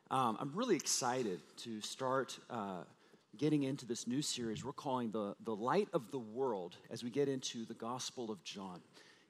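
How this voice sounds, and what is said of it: Weak, strained voice. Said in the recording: “my voice is a little, uh, little, little weaker today”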